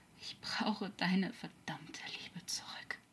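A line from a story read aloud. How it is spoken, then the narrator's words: Weak murmur. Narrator (German): murmelte kraftlos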